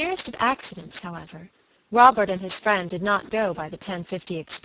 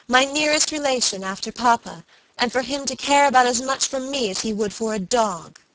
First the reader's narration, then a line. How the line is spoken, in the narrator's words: she cried passionately